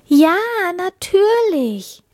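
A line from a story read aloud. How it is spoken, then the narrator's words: Joyful calling. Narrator (German): rief die Prinzessin froh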